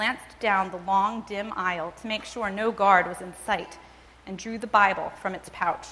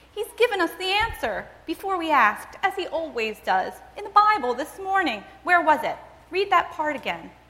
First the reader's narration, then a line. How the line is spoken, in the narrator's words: she said excitedly